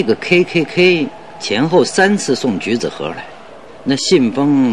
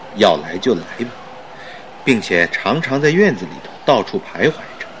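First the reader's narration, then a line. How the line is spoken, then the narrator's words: Muttering. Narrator (Chinese): 还在那儿嘟囔着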